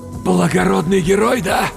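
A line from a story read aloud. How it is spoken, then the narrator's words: Forced out. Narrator (Russian): выдавил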